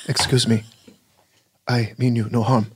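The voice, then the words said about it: Imitates another person's voice. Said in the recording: “My next impression, I'd like to do Quatchang Kane from the TV show Kung Fu as portrayed by David Carradine.”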